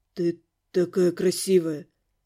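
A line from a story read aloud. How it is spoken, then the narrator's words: Hoarse whisper. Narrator (Russian): хрипло шептал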